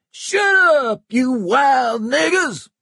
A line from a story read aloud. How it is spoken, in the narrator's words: Stump screamed back